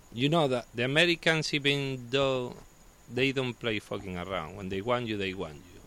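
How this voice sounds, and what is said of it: Spanish accent speaking English. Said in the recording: “This is the first country that I have sex because of my accent. ... back in Spain is completely normal. ... The people like my accent?”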